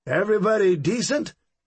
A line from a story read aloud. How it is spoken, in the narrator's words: he sang out cheerfully